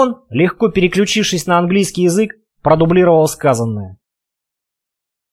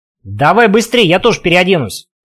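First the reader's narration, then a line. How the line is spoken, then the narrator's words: Calling out after. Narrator (Russian): успела крикнуть вслед Сельфида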